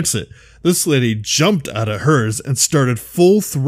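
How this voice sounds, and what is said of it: Usual voice. Nothing is said of it.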